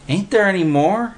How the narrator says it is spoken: Willie whined

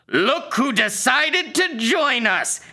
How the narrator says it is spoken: he spat, sneering

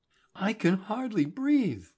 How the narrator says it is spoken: Cynthia gasped

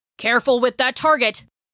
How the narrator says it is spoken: he hollered at Jill from his bed

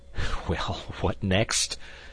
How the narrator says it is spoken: said D'Artagnan, laughing in spite of himself

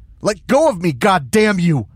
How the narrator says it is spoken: I yell

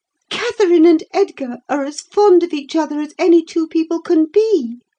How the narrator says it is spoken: cried Isabella with sudden vivacity

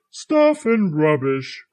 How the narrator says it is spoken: cried Santa

